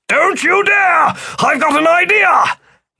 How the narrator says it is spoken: Philip yelled

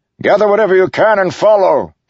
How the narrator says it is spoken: shouted

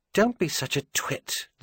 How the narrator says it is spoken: the back of her brain told her sharply

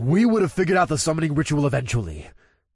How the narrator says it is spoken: the OLG member said with a scoff

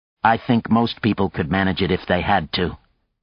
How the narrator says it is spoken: he said evenly

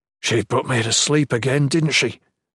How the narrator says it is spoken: Jen growled angrily

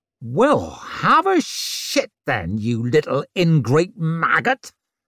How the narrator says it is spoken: she snarled

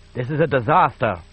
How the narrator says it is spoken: said Axe Milk nervously

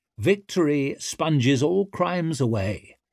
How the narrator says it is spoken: Vittorio said

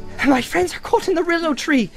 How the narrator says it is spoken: cried Frodo breathlessly

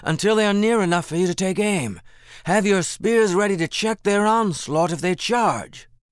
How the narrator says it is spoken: Jethro shouted

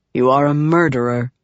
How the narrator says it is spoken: Helleran said calmly

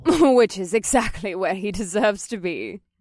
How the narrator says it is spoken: Vanessa laughed

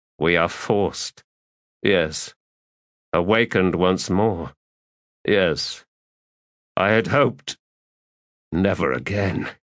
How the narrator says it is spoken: said Skintik in a low, hollow voice

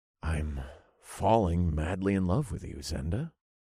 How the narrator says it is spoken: I said in a serious tone

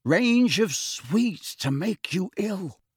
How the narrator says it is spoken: George whispered

